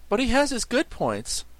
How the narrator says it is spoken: replied Sacco cheerfully

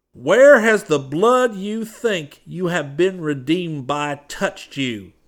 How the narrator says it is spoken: he cried

